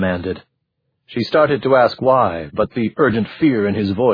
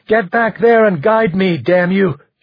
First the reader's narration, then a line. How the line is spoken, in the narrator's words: she shouted